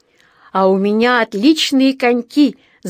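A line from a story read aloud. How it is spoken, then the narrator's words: Delighted shout. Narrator (Russian): закричал Джонатан, тоже довольный до нельзя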